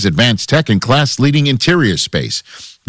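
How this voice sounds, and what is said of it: New York accent. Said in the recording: “My New York accent just came back out there when I said interior. ... Just slips out.”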